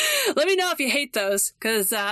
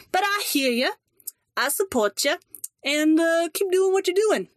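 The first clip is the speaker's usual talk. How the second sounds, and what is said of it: Put-on weird accent. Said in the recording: “The weird accent optional. ... I tend to break into them”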